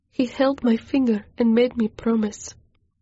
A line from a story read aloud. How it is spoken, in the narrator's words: I choked out